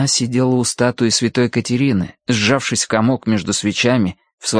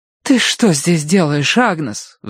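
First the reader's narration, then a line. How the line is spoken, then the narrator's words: Relieved scolding. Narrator (Russian): Вздохнув от облегчения, напустилась на нее Киврин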